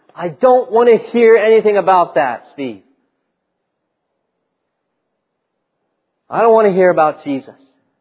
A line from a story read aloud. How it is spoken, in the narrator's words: a family member yell at you